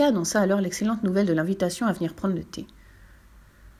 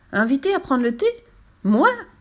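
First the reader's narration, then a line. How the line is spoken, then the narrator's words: Exclaiming. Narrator (French): s'exclama Fifi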